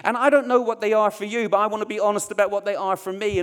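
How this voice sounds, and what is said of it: Essex and East Belfast accent. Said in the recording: “My accent can leave me feeling vulnerable. Because in Essex and East Belfast, they never say their THs properly.”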